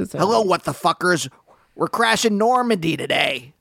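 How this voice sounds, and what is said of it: Marc Maron impression. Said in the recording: “great impression ... kind of do a Marc Maron”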